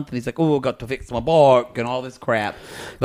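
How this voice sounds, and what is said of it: Bad put-on South African accent. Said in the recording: “that's a really bad South African accent... South African”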